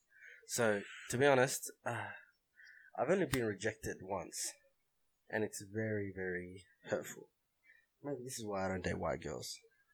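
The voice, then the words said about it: Australian accent. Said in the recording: “if you can't tell by my voice, I'm pretty Aussie”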